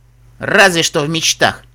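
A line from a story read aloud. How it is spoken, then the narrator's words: Snorted. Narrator (Russian): фыркнул Земнопони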